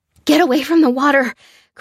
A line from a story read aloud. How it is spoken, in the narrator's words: cried Lucy